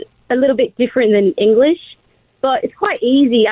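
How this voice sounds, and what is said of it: Put-on Australian accent. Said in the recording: “I could do a solid Australian one, too. ... Do the Australian one for us. ... I think it's great. ... It's really great. ... Killing it.”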